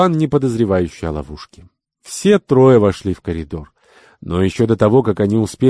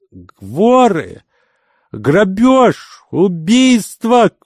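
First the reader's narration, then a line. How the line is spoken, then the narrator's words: Screaming. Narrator (Russian): вопила она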